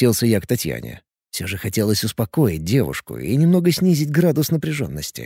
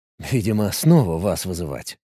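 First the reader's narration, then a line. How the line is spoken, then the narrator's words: Grumbling mutter. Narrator (Russian): буркнул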